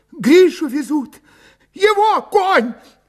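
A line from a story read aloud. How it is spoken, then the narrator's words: Sobbing. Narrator (Russian): рыдая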